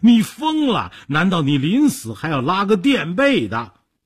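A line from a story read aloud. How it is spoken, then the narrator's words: Trembling, terrified. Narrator (Chinese): 说着……抖成一团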